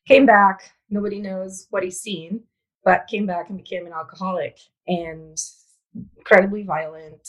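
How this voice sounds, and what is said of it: Italian accent. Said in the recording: “I was born and raised in Italy, sorry, this is my accent from”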